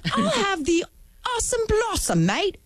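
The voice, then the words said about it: Put-on accent. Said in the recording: “You don't need an accent to order a lunch.”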